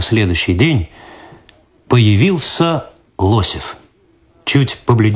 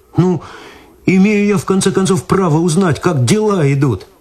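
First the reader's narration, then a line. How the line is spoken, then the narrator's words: Pleading. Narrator (Russian): взмолился Виталий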